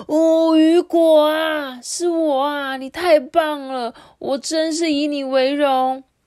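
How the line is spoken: Shouting. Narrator (Chinese): 他大喊说

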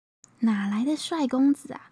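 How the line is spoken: Silent amazed thought. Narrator (Chinese): 两个人都在心里默默的惊叹了一声

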